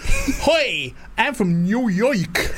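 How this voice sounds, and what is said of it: Put-on New York accent. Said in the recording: “That's your New York accent”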